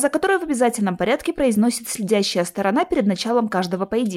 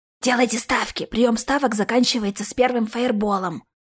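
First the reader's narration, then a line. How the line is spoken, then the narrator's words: Whispered among spectators. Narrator (Russian): шепотом передающаяся в кругу зрителей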